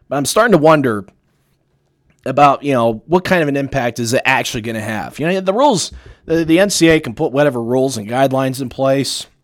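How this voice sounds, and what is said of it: Hoarse, strained voice. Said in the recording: “losing my voice a little bit here at the end of the show”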